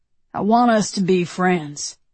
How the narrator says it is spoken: he says

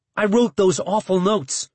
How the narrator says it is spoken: I said quickly

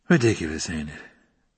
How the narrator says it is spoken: Padrakis said sleepily

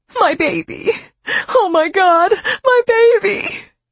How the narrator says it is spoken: she sobbed

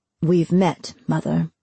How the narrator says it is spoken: Freeman said through his teeth

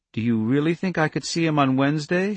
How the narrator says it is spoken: she asked timidly

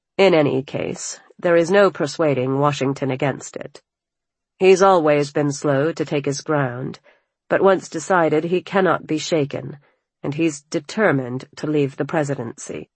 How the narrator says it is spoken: Sullenly, he said

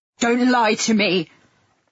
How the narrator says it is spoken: he spat

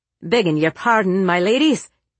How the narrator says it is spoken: he called out in his thick Irish brogue

